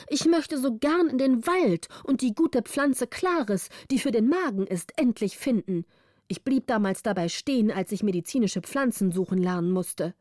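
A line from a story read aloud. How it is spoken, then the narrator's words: Calling out. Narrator (German): rief wilde Beere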